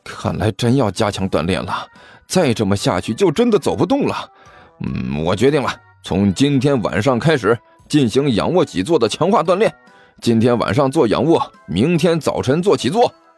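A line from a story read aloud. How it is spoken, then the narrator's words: Panting mutter. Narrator (Chinese): 甘球一边大口喘着粗气，一边嘀咕道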